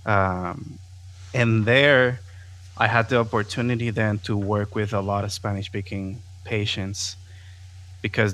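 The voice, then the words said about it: Non-native accent in English. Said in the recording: “my accent, which is still there, but my accent was very, very thick”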